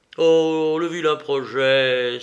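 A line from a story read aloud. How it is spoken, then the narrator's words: Exclaimed. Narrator (French): s'exclama-t-il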